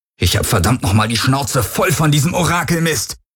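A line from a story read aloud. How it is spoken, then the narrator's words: Angry bellowing. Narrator (German): brüllte er die Helix an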